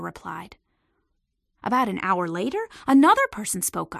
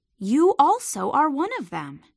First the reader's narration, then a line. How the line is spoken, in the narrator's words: he said